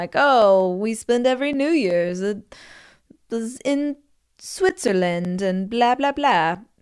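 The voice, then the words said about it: Put-on fancy European accent. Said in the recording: “my boyfriend is European ... He has a much prettier accent than that”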